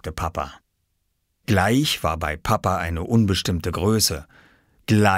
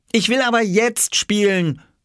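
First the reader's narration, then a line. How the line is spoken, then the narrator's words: Calling out. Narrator (German): rief er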